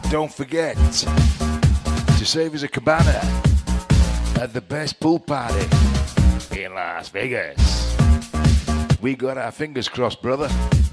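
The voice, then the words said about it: Put-on American accent. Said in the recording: “Why am I talking American?”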